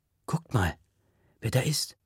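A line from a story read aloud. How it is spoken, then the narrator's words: Whispered. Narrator (German): flüstert Faiz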